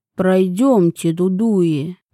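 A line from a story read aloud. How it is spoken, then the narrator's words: Deep bass voice. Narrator (Russian): пробасил один из них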